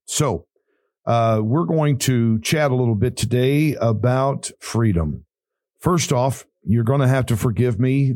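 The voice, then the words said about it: Raspy, rough voice. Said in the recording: “radio voice is a little raspy ... my voice is a little raspy, a little rough”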